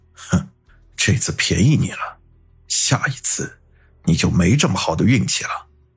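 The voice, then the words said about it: Quiet muttering voice. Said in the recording (Chinese): “小声的嘀咕”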